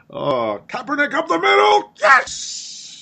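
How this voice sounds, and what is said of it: Imitates a sportscaster's play-by-play call. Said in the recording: “that Marv Albert impression”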